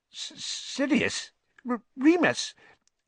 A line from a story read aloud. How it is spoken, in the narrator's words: Even Pettigrew's voice was squeaky